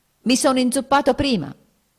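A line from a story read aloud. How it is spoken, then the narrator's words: Near shout. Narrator (Italian): gridò quasi egli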